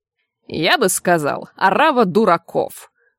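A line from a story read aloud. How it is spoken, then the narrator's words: Snort. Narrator (Russian): фыркнул заведующий кафедрой бесконечных студий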